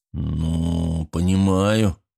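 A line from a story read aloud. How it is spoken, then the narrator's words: Gruff mutter. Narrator (Russian): буркнул Григорий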